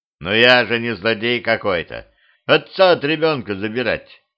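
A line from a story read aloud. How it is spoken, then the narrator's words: Snort. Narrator (Russian): хмыкнул дьявол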